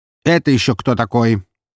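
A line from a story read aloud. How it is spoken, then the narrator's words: Loud, confident, commanding. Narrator (Russian): Сразу слышно привыкшего отдавать приказы человека, говорил он очень громко и уверенно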